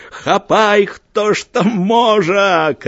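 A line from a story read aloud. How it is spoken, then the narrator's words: Shouting. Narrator (Belarusian): крычаў Маеўскі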